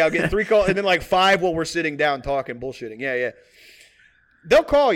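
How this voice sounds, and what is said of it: Usual voice. Nothing is said of it.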